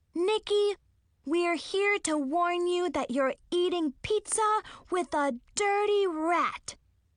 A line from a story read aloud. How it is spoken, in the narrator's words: Zoe said loudly